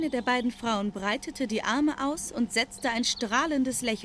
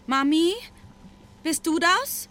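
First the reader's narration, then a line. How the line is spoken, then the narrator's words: Uncertain call. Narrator (German): rief sie unsicher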